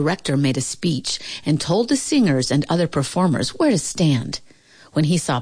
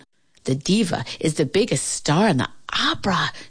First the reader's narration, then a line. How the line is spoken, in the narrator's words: Shirley whispered to her